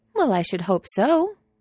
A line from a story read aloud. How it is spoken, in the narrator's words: Franny says brightly